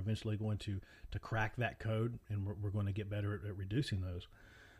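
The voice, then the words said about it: Heavy Appalachian accent. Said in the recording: “my wonderful Appalachian accent, which is a little bit heavier, if you can't tell ... a little less redneck”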